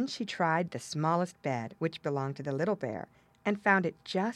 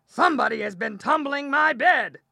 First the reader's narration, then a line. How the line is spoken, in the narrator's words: the big bear growled